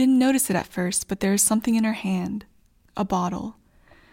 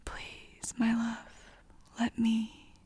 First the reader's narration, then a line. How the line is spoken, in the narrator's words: she smiles softly and whispers